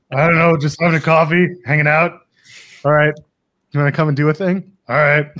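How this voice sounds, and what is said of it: Imitates another person's voice. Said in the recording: “a good Shawn Michaels impression, I got to say. That's not bad. ... it's not bad, honestly.”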